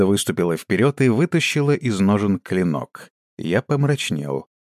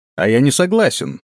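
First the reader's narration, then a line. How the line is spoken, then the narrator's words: Exclaimed. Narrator (Russian): воскликнул я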